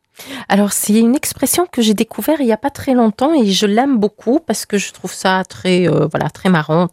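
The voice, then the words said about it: Hungarian accent in French. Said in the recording (French): “avec un accent comme j'ai ... il vient d'où votre accent ... Je suis hongroise.”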